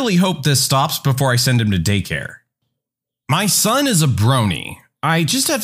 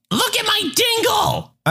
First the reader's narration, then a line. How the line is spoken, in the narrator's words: My 3-year-old likes to pull his bits out of his pull-up and yell